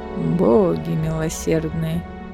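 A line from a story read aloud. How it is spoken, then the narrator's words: Muttered. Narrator (Russian): пробормотал Фенрис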